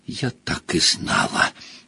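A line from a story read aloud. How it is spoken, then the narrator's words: Breathless exhale. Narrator (Russian): Выдохнула Гермиона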